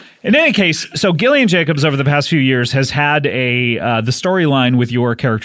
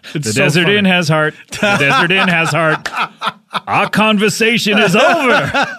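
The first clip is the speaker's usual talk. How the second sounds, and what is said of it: Imitates another person's voice. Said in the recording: “I'm just trying to do your impression of him.”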